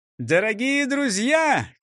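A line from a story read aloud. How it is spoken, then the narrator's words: Shouted. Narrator (Russian): крикнул он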